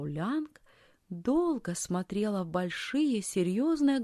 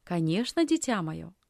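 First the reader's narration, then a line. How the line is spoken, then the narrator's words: Plain. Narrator (Russian): ответила фрау Лянг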